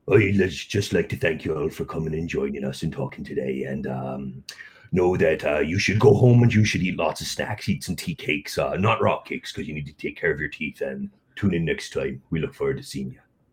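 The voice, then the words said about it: Pretty good Hagrid impression. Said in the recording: “I'm going to go for a Hagrid impression ... the Hagrid accent, but that was pretty good. That was really, really decent.”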